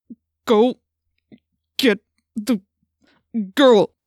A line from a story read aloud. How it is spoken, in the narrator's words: he said through gritted teeth